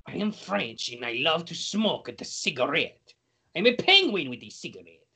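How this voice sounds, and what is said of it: Exaggerated put-on French accent. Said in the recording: “Your accent. ... Why do you always end up sounding like Mario?”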